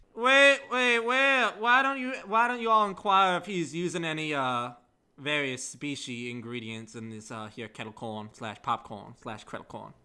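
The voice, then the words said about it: Colonel Sanders-style Southern voice. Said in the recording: “Why are you now Colonel Sanders? ... that's his accent for that armor”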